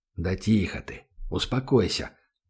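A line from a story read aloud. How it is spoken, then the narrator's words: Whispered. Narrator (Russian): прошептал Данил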